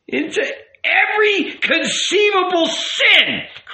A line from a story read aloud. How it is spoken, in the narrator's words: cried the rabbi